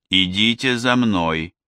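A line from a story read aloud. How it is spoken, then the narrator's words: Plain. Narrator (Russian): сказала она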